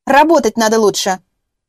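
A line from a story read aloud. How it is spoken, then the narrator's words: Barking snap. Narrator (Russian): рявкнула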